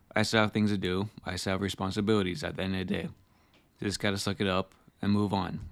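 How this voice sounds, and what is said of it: Rough, sick-sounding voice. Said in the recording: “apologize for my voice because I'm currently not feeling well, which leads to my voice being curly as it is”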